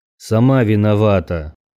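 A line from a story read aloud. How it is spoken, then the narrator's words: Grumbled. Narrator (Russian): Проворчал я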